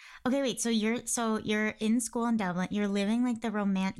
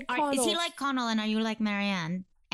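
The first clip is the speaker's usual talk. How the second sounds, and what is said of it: Poor attempt at Dublin accent, sounds British. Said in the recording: “how is my Dublin accent? Oh, that was bad... That was very British, actually.”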